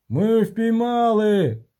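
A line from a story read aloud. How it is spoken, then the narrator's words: Masons shouting. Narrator (Ukrainian): крикнули мулярі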